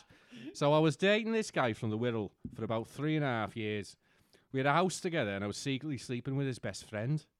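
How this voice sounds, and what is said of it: Put-on Scouse accent. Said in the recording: “Why can't I do a fucking Scouse accent? There you go. ... There's your fucking Scouse accent.”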